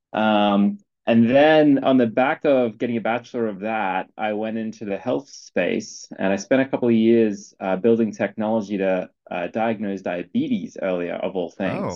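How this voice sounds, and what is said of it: Slight Australian accent. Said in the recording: “I studied game design and computer science in Australia, so I'm obviously slight accent, but I'm originally from Brisbane, Queensland, in Australia.”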